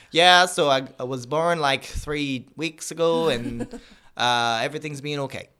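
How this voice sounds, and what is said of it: Imitates another person's voice, bad accent. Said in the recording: “That was a really bad accent”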